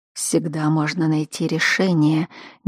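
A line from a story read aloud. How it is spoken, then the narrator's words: Quiet speech. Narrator (Russian): негромко сказал Кайден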